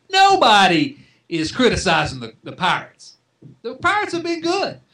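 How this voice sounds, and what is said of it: Imitates another person's voice. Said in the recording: “let me channel Tom for just a second ... that's my little Tom Brenneman imitation.”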